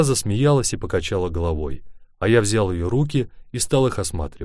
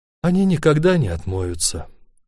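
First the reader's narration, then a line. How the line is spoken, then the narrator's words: Sighing. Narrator (Russian): вздохнула она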